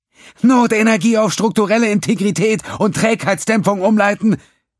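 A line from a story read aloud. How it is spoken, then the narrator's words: Female calling. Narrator (German): rief sie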